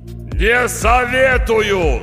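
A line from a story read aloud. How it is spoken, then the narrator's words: Yelling. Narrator (Russian): заорал голос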